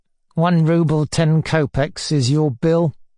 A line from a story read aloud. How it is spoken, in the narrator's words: filtered through his teeth